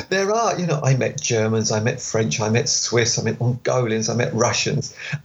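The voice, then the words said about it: British Essex accent. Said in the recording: “this British Essex accent because I'm quite good at that ... Is that the British Essex accent? ... Yeah, I can't help it. It's just the way I talk.”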